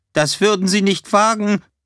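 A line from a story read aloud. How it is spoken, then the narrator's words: Called out. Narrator (German): Greenman rief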